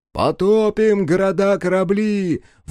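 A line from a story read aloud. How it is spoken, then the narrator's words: Riders shouting in unison. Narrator (Russian): в один голос выкрикнули всадники Агоны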